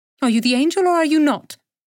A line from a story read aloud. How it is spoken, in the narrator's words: said the woman crossly